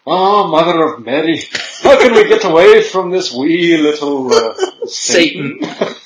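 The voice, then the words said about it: Put-on Irish accent. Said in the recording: “suddenly he has an Irish accent”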